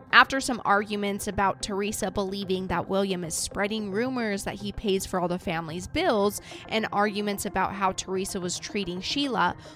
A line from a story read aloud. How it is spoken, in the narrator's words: William snaps